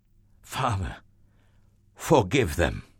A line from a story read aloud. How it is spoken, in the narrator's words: Jesus gasped